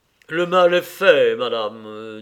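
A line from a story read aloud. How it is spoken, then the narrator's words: Abbot's grave voice. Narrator (French): dit l'abbé d'une voix grave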